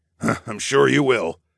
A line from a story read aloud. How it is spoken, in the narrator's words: Darwin snorted